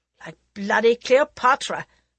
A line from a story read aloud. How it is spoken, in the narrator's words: Prince Pratap snorted in derision